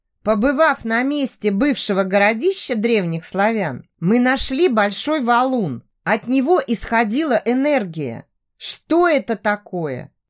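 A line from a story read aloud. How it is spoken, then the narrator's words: Plain. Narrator (Russian): спросила Даша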